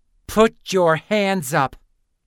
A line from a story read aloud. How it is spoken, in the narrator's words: Lynn snarled, reminded of how much she hated that first nickname